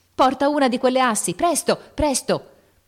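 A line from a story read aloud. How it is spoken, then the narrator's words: Voice shouting. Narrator (Italian): la voce di Lori gridò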